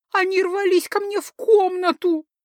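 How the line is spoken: Tragic sobbing. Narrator (Russian): трагически прорыдала она

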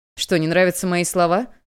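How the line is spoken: Cold. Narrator (Russian): Холодно продолжил Чуньван

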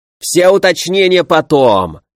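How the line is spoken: Sharp bark. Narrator (Russian): рявкнул князь

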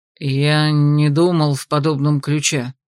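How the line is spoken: Muffled reply. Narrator (Russian): глухо отозвался

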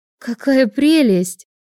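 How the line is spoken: Exclaiming. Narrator (Russian): воскликнула Аня

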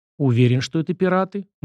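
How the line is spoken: Grim question. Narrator (Russian): мрачно уточнил Сашка

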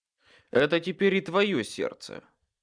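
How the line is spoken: Gruff mutter. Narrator (Russian): Буркнул я

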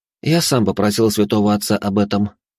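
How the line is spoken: Calm reply. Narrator (Russian): спокойно ответил я

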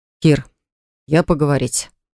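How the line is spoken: Breathy. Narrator (Russian): выдохнул он

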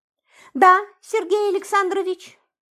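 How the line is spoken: Meek babbling. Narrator (Russian): покорно пролепетала она

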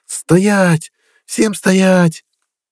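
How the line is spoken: Loud startling shout. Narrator (Russian): закричала так, что вздрогнул

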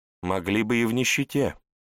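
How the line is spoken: Calm objection. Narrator (Russian): спокойно возразила Елена

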